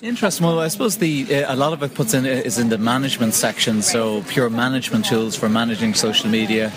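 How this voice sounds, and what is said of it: Irish accent. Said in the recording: “From that accent, you know he is from Ireland.”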